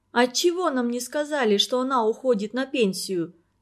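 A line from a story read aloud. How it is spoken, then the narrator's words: Plain. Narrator (Russian): спросила Ульяна Оленина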